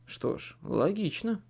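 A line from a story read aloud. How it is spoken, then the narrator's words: Muttered. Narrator (Russian): пробормотал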